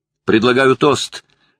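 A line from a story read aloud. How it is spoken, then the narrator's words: Shouted toast. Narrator (Russian): крикнул Джерри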